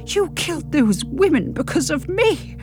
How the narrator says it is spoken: croak

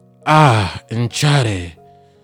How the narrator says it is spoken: began, in a deep yet gentle voice

